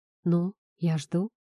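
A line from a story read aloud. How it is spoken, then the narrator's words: Quiet call. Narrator (Russian): тихо позвал Никита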